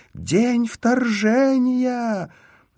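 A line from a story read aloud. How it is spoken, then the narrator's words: Woman screaming. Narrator (Russian): женщина завопила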